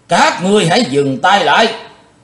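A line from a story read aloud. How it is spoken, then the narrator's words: Thunderous shout. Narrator (Vietnamese): tiếng quát tợ sấm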